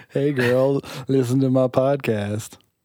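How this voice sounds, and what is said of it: Imitates another person's voice. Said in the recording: “my best Daniel impersonation,... I don't think I did very good.”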